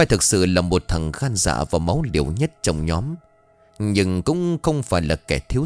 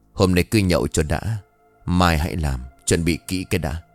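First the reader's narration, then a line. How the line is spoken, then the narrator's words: Faint dry laugh. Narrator (Vietnamese): Khoa liền cười nhạt rồi đáp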